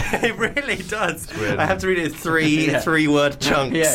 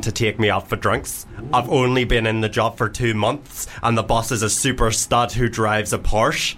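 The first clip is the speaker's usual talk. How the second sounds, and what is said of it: Put-on Geordie accent, odd emphasis. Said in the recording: “I went a bit Geordie. ... just doing an accent makes you forget how to read ... emphasis is off. You sound like Sven-Göran Eriksson, mate.”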